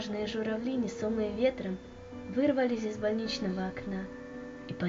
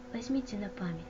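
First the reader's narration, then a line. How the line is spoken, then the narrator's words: Mother's whisper. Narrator (Russian): прошептала мама девочки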